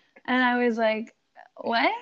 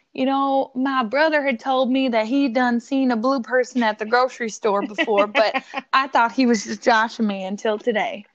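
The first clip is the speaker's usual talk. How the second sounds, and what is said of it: Imitated light Southern accent. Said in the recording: “in a little southern accent”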